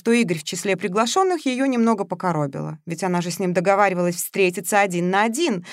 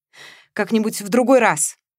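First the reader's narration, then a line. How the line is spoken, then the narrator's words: Snorting. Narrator (Russian): фыркнула Мария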